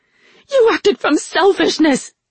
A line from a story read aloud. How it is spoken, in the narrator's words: Rin screamed